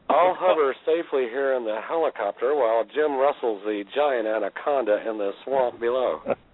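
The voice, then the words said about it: Marlon Perkins impression. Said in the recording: “my Marlon Perkins impression”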